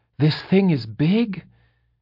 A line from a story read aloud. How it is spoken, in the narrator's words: she asked, panting